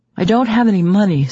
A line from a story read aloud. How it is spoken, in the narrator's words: says Rich anxiously